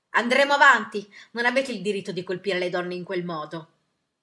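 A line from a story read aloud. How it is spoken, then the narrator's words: Yelled. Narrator (Italian): il capo della delegazione urlò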